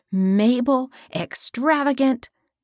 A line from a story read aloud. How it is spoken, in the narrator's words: exclaimed Hilda